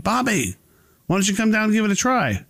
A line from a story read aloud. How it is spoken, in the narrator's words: Mike then yells up to Bobby